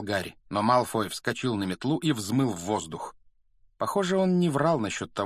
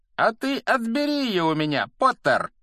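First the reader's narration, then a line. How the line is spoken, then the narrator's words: Loud call from above. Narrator (Russian): громко предложил он сверху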